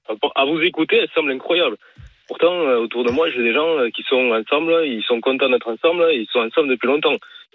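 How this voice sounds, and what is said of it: Noticeable regional French accent. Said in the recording (French): “il a le petit accent qui va bien”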